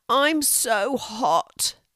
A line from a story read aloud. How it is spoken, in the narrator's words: groaned Louis